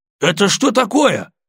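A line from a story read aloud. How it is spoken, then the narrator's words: Nearly shouting. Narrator (Russian): почти закричал он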